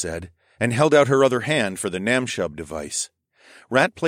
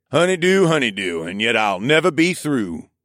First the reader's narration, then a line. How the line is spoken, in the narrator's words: Riggs grumbled, but his smile lessened the grumpitude